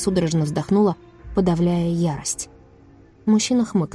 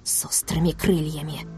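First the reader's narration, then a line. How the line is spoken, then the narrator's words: Hateful whisper. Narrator (Russian): прошептала с ненавистью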